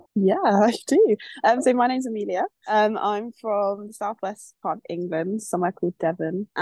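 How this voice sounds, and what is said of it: Croaky voice. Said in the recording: “My voice is a bit croaky. I've only just woken up. I haven't used it yet this morning.”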